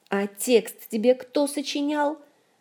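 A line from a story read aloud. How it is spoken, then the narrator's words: Angry snapping retort. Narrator (Russian): сердито огрызнулась Ольга, досадуя на свою доверчивость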